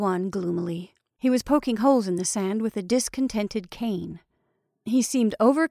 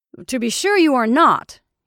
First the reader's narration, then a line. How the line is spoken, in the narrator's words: cried vehemently